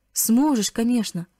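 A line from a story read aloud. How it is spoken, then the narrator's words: Gentle voice. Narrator (Russian): ласково произнес пастор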